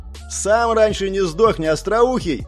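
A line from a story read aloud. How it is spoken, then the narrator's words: Shouted. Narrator (Russian): крикнул я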